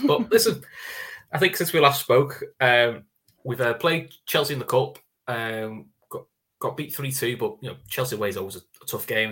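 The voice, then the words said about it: Hoarse, strained voice. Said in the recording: “I'm a little bit hoarse, though... My voice is killing me after that... Screaming at the ref.”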